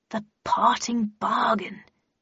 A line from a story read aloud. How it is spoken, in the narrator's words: she muttered happily